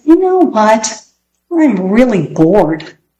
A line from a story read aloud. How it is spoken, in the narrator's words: Peter, slouched in a chair, said